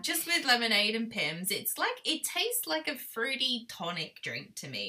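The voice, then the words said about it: British accent with some Australian. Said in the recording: “being completely and utterly boring British that I am, I am really British, but, you know, going to the Aussie land. I'm just a mixture of a bag now. People don't know how to take me in my accent.”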